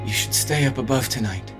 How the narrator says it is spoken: the boy murmur

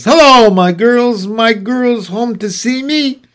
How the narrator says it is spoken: Her voice travels all the way up to our bedroom

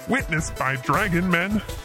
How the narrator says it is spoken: Fax repeats with a laugh

